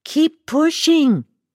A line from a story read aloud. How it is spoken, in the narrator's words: they yelled over my screams